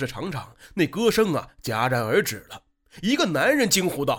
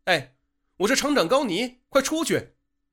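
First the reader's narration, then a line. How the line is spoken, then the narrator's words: Loud speech. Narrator (Chinese): 高厂长大声地说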